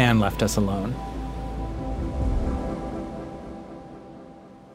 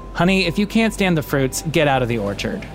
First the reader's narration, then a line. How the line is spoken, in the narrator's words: his voice straight as an arrow, and said